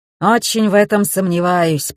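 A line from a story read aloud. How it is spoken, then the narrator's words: Grumbled. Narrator (Russian): пробурчал Александр Михайлович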